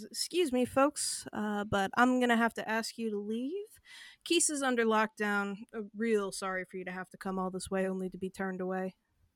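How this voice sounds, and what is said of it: Slight Southern cadence, half-committed accent. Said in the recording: “Switching to an accent... A little bit. Just like the cadence... It had the air of someone who would be doing a southern accent if they felt good enough about what their southern accent sounded like”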